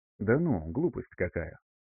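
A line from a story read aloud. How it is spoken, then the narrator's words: Quiet scoffing snort. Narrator (Russian): тихо хмыкнула ужасающе красивая темноволосая девушка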